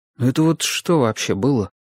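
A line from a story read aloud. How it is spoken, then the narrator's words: Quiet question. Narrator (Russian): тихонько спросил я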